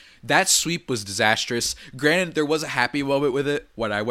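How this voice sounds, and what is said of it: Usual voice. Nothing is said of it.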